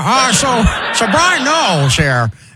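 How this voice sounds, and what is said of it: Bad Colin Cowherd impression. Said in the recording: “He has the worst Colin Cowherd impression anybody has ever done ... It sounds like Rush Limbaugh or something like that. It doesn't sound like Cowherd at all.”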